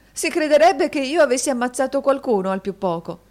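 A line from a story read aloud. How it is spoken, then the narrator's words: Laughing exclamation. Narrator (Italian): esclamò la signorina Price con una risata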